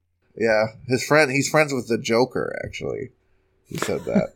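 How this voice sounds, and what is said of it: Usual voice. Nothing is said of it.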